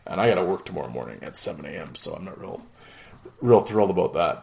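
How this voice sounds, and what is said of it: Strained, fading hoarse voice. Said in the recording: “as you can tell, I'm losing my voice.”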